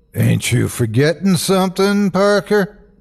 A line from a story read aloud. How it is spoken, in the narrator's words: boomed Hank's basso voice from just beside the door